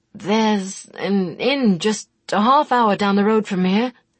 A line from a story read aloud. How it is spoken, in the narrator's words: he told them, stammering a trifle